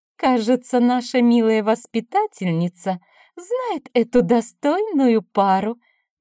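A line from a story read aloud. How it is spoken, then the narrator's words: Cooing. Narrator (Russian): проворковала пани Калиновская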